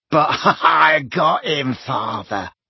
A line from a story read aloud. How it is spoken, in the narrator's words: cackled Morfin